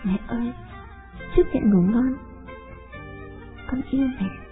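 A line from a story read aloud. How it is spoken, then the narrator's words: Whisper. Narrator (Vietnamese): Con thì thầm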